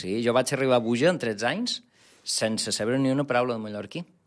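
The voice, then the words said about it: Mallorcan Catalan accent from Buja. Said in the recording (Catalan): “El teu accent és de Buja ... Estic molt orgullós del meu accent Bujarró”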